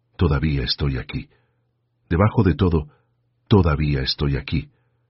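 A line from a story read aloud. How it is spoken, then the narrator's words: Whispered. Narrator (Spanish): Mary susurró en la oscuridad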